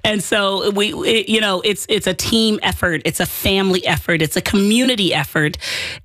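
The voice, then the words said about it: Worn-out, strained voice. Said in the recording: “leaving it all out on the field here, as you can hear, my voice is sprawled out all over the field”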